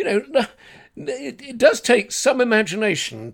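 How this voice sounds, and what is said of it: Usual voice. Nothing is said of it.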